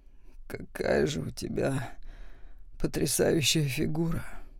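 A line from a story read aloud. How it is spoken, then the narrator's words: Hoarse murmur between kisses. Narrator (Russian): хрипло пробормотал он между поцелуями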